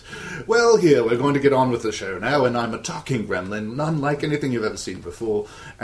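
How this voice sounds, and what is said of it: Erudite, almost British accent. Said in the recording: “speaking very eruditely in an almost British accent”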